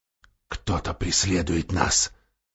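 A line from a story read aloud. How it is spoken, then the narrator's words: Low voice. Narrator (Russian): сказал гном вполголоса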